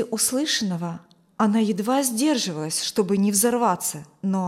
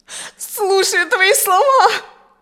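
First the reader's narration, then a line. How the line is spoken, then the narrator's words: Woman sobbing. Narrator (Russian): Продолжая рыдать, ответила женщина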